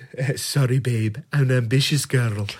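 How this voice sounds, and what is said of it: Imitates a woman character's voice. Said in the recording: “that was my impression”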